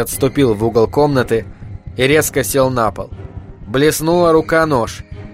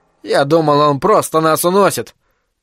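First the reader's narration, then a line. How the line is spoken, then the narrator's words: Grumbling. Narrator (Russian): проворчал Айзек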